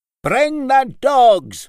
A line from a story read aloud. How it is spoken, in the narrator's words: boomed Laird Maclay